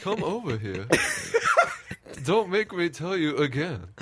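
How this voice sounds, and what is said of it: Poor upper-crust character voice. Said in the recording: “That was awful. ... You sounded like Cameron in Ferris Bueller's. ... some kind of like, you know, upper crusty accent”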